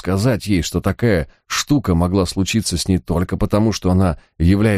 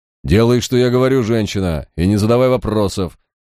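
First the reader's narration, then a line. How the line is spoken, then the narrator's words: Loud growl. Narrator (Russian): громко прорычал Барак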